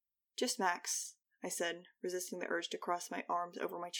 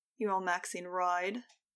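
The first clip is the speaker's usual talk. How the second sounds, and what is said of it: Sneering British accent. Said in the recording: “He said with a sneering British accent”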